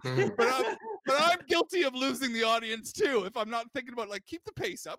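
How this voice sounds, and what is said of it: Speaker with a noticeable accent. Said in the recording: “I have an accent, obviously”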